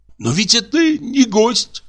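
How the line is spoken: Pleading voice. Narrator (Russian): сказал умоляющим голосом мой друг

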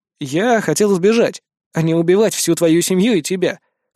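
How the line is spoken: Smirking snort. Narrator (Russian): хмыкнул я

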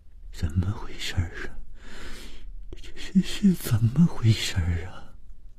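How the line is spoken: Trembling voice. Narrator (Chinese): 谭小颖声音颤抖地说

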